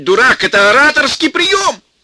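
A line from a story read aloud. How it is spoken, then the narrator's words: Quick shout. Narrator (Russian): Щеблетов успел крикнуть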